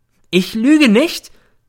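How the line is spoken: Sudden roar. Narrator (German): brüllt plötzlich los

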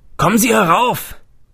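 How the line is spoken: Man calling from above. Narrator (German): rief ein Mann von oben

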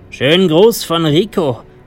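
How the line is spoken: Calling out. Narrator (German): rief mir der eine zu

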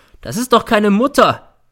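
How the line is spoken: Shouting. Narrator (German): schreit er

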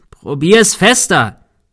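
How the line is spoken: Shouting. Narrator (German): schrie Thomas

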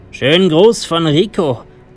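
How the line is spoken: Called out. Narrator (German): rief mir der eine zu

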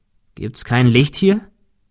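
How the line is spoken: Plain. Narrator (German): fragte Thomas

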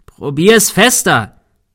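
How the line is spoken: Shouting. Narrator (German): schrie Thomas

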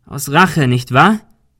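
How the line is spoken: Called out. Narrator (German): rief Ben

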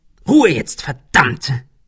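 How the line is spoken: Hissed angrily. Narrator (German): fauchte Ben

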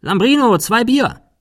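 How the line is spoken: Calling inside. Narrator (German): rief nach innen

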